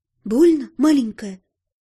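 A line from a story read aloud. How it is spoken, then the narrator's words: Gentle question. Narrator (Russian): ласково спросила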